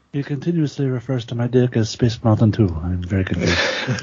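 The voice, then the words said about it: Put-on Latin-accented impersonation voice. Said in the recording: “Andrade impersonations just sound like Ricardo Montalban... I was leaning towards the guy from fucking Mr. Deeds”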